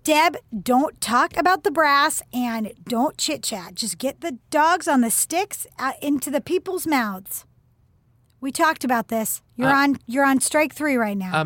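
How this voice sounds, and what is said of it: Slight Midwestern American accent. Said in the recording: “you have a bit of a Midwestern accent”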